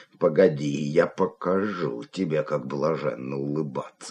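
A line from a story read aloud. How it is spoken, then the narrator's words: Muttering. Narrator (Russian): бормотал он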